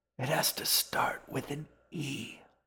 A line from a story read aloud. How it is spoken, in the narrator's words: whispered